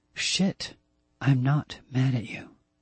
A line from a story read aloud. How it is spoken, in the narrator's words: she said, her voice quiet